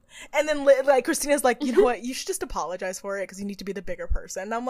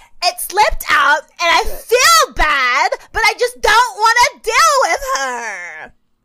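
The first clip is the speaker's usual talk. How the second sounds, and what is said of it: Imitates another person's voice. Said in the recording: “I've been working on my Liz impression, so I'm going to do it.”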